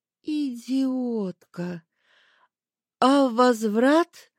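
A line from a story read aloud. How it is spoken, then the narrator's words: Flat lifeless voice. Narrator (Russian): Стараясь дышать исключительно носом, мертвым голосом спросила я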